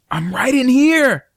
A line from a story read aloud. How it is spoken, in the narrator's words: I yelled